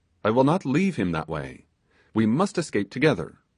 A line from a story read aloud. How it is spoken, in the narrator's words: said Toby desperately